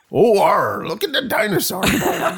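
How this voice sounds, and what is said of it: Bad West Country pirate accent. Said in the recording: “That was the worst West Country accent ever. ... You were a pirate.”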